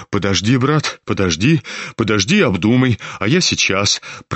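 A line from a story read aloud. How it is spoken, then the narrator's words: Hurried, almost frightened. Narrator (Russian): проговорил он в попыхах и почти испуганно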